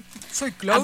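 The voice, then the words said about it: Put-on deep male voice. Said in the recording (Spanish): “Me sale bien la voz de hombre. ... puse voz bien gruesa.”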